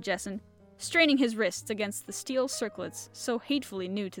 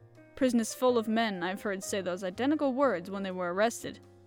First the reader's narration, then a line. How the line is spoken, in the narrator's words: said the detective